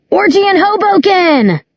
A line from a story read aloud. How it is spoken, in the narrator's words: someone, probably Eric, yell